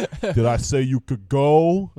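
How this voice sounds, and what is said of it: Weird put-on accent. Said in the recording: “Like that sort of weird accent.”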